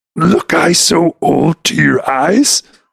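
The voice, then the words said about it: Yoda character voice impression. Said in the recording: “doing Yoda voices ... do a Yoda voice ... Listen to his Yoda”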